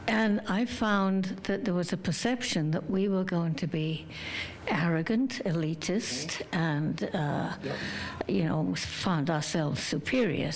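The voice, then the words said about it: Mild British accent. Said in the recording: “Still have some accent, I'm told, but it was extremely strong when I came here.”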